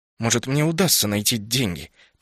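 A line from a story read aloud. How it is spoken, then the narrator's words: Grumbling. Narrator (Russian): проворчал я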